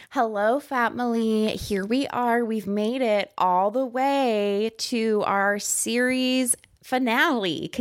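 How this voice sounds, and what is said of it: Put-on podcast host voice. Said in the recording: “Let me get into my podcast voice for the last time.”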